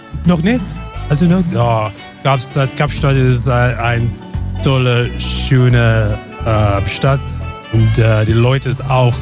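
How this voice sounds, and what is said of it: Slight foreign accent in German. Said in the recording (German): “Der hat so einen leichten Dialekt.”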